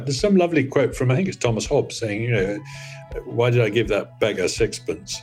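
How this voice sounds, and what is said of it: British accent. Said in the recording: “I do love a good British accent. I only wish I could convincingly say sixpence with such panache.”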